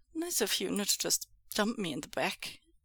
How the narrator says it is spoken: Wei Ying slurs

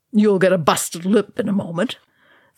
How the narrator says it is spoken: Thorin snarled

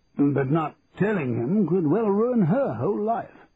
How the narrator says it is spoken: I suggested testily

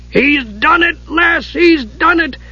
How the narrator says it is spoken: Dugan shrieked

